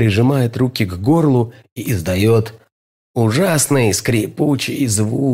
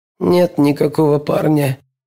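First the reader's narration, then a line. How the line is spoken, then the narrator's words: Hoarse. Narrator (Russian): хрипит Холли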